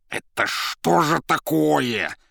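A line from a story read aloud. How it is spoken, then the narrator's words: Near hiss. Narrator (Russian): почти зашипела Зазелла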